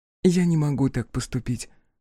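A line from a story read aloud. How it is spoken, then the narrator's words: Gentle objection. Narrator (Russian): мягко возразила Фара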